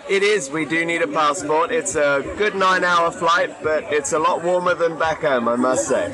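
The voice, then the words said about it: British accent. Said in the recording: “a couple from the United Kingdom ... listen to that, ladies ... accents”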